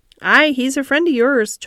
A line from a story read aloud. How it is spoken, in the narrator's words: chuckled Dickon